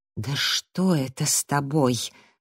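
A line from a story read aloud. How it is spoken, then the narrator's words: Ominous whisper. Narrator (Russian): спросил зловещим шепотом Джастин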